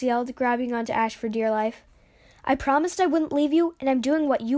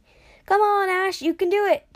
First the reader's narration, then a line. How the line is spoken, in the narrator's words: Jax yelled right in Ash's ear